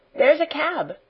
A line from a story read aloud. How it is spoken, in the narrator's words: exclaimed Janet